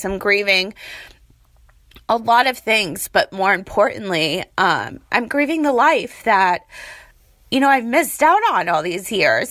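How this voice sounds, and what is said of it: Hoarse, fading voice. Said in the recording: “I'm like losing my voice because I'm in Vegas. It's so freaking cold. And, I don't know, I get like allergies or something.”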